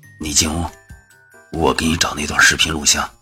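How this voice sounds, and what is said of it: Quiet, hushed speaking voice. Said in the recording (Chinese): “小声的说道”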